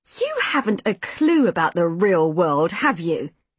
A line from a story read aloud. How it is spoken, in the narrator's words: Minnie said, her voice dripping with contempt